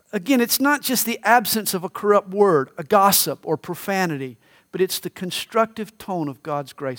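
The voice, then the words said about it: Southern American accent. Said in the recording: “identify me as a Southerner... I've got a Southern accent.”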